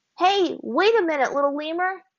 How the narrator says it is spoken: Aang called out, overjoyed at the thought of reuniting with his friend

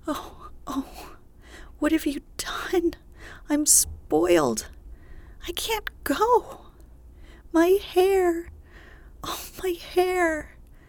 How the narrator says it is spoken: wailed Meg, looking with despair

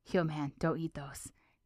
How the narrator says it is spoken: Finn whispers to him warningly

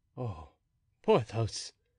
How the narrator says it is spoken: murmured the Comte de la Fere

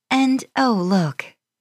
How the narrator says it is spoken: she exclaimed loudly

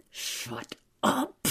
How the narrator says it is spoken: hissed Travis

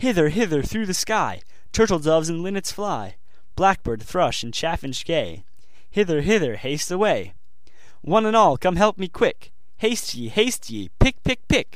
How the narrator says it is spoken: cried out as before

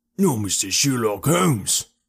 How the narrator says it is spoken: roared the prize fighter

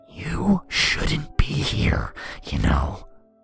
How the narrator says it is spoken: growled

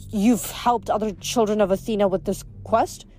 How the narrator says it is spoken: she stammered

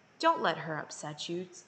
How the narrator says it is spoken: said softly

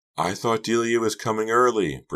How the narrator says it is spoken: Britty shouted over the throbbing music

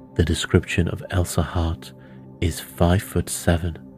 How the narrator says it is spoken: Poirot paused and then added softly

